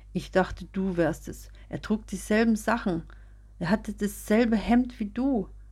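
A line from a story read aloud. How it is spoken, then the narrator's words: Sobbing. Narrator (German): sagte sie schluchzend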